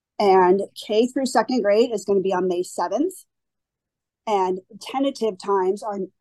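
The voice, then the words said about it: Strained, fading voice. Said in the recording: “I'm kind of losing my voice”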